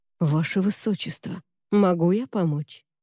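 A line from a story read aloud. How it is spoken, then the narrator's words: Quiet question. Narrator (Russian): тихо спросил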